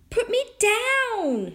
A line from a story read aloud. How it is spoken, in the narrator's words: shouted Tom's teeny tiny voice